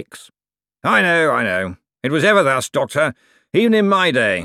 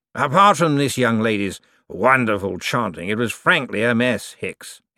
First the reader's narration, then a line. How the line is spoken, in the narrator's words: he said sharply